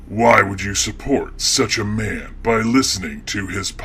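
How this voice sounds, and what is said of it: Creepy, scary character voice. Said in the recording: “creepy voice guy ... scary voice that is meant to frighten people”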